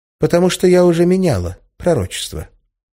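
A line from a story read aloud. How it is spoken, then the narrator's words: Completely calm. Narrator (Russian): совершенно спокойно ответила Арина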